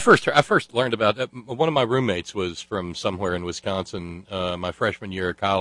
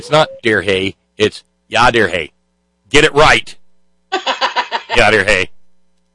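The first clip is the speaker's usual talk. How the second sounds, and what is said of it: Put-on Wisconsin accent. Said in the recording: “Wisconsin accent”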